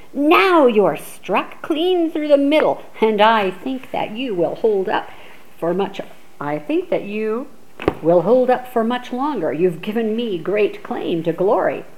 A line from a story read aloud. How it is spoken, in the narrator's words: the shining son of Lycaon cried aloud in a great voice